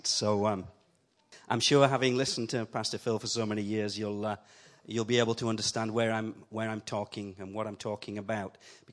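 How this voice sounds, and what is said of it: Yorkshire accent. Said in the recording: “I have the same accent as Pastor Phil ... I don't try and talk properly like he does. I keep my Yorkshire accent. ... I come from up north”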